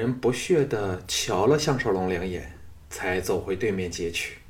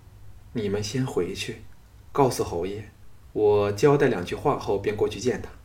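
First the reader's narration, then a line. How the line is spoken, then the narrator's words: Sighing. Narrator (Chinese): 他叹了一口气后说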